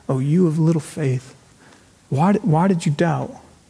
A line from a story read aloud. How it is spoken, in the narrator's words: that is not harsh, but it's Jesus gently